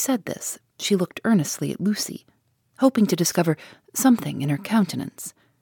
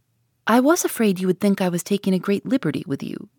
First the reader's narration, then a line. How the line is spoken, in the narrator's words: said she